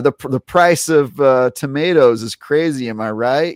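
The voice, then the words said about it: Bad put-on Italian accent. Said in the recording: “a terrible Italian accent”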